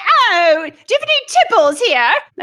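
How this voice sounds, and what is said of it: Poor put-on British accent. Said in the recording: “That was a horrible accent ... proper British tea”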